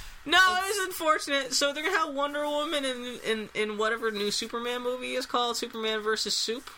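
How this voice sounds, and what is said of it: Usual voice. Nothing is said of it.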